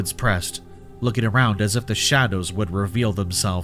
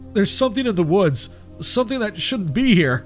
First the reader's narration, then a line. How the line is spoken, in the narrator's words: Mark stammered, his eyes wide with fear